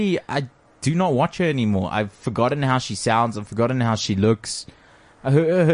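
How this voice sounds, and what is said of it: Usual voice. Nothing is said of it.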